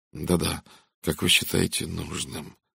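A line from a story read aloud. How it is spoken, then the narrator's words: Mechanical mutter. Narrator (Russian): механически пробормотал Редферн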